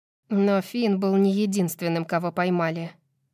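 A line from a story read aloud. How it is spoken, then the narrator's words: Gloomy remark. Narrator (Russian): мрачно замечает Мира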